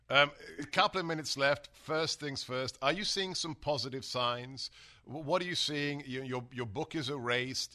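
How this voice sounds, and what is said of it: Speaker's own foreign-sounding accent. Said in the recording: “me as just some guy with a funny accent”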